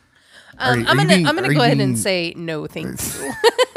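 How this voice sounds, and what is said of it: Sarcastic tone. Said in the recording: “Are you being sarcastic? ... Yes, I am being sarcastic.”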